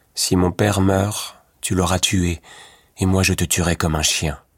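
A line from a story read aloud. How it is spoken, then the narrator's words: Dark somber voice. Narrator (French): dit Louis Cornbutte d'une voix sombre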